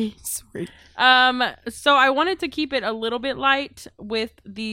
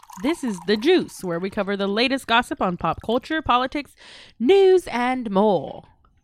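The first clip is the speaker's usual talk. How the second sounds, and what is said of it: Badly put-on country accent. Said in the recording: “Did you like that accent? Ooh, I had two of them, didn't I? ... Y'all like that accent? ... that's a horrible country accent.”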